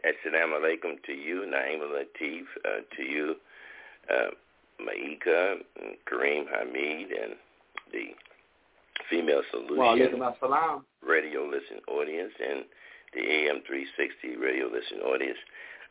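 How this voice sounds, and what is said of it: Slightly congested, sniffly voice. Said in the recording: “I'm a little under the weather ... We have a little sniffle here, so you may hear it in my voice.”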